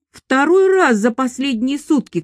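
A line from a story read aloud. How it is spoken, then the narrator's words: Shouting. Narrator (Russian): кричал он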